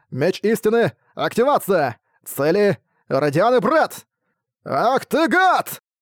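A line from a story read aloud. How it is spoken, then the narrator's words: Two furious voices yelling. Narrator (Russian): Одновременно завопили разъяренные маг и зверовод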